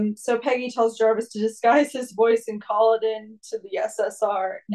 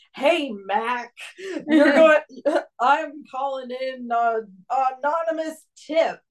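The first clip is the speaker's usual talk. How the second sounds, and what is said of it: Exaggerated stupid American accent. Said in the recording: “really, really stupid American accent”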